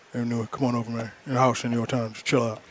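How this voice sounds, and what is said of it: Imitates another person's voice. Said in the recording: “pretty good impression”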